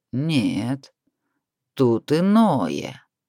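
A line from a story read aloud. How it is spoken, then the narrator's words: Drawling dragon. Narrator (Russian): протянул дракон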